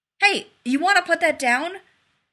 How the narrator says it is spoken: He called urgently

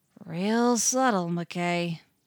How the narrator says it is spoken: John drawled

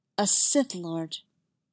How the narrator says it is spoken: Master Saw repeated, her voice soft but dangerous

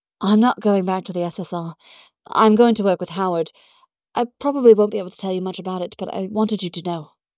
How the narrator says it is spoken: Peggy pulls back and says breathlessly

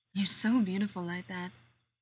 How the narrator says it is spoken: he says

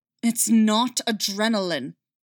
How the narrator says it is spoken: Callus snarled back

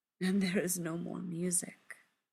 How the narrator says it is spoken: Sebastian says sadly

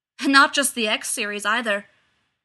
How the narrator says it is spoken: called Dan Mole from above, his voice as hard as Alec's

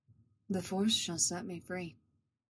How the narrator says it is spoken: Revan murmurs

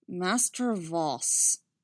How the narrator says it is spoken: Eeth said, his normally smooth voice lowering to something that was almost a growl

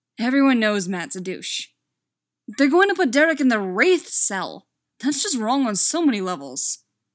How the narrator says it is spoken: Stiles grumbled

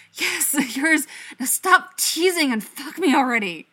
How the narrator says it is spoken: Styles pants and gasps and says

